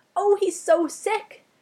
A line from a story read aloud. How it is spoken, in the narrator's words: cried